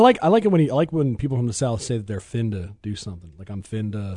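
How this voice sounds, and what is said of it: Usual voice. Nothing is said of it.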